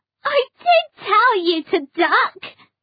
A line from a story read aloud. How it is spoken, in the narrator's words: laughed Roz